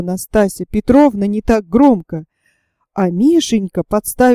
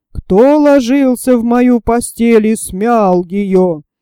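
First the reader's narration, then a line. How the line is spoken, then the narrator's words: Terrifying roar. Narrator (Russian): заревел Михаил Иванович страшным голосом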